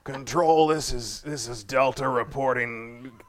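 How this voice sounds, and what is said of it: Imitates another person's voice. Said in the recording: “That's pretty good, man. You do a pretty good impersonation.”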